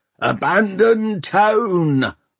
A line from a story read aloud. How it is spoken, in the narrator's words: hollered Peavy